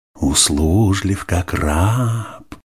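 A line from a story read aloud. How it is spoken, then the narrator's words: Sugary fawning voice. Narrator (Russian): сахарным голосом произнес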